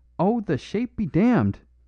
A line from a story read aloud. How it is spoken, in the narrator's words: cried Flambeau